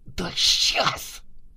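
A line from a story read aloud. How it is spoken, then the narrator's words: Angry resisting hiss. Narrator (Russian): Злобно прошипела упирающаяся Валюшкина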